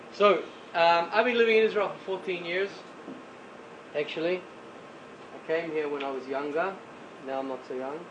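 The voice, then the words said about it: New Zealand accent. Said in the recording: “any guesses on my accent? ... New Zealand is the correct answer.”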